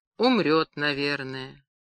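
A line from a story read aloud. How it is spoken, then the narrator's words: Very quiet, absent-minded. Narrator (Russian): Карась, не замечая окружающего и проговаривая бессмысленно текст, очень тихо сказал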